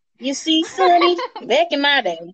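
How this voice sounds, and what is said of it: Old person Southern accent. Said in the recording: “Accent ... All old people have Southern accents, honey.”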